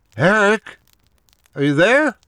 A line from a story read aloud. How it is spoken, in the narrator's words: said, my voice louder this time